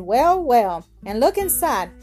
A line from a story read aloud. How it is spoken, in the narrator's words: exclaimed his mother